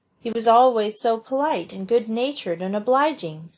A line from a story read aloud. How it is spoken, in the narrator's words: sighed Cecily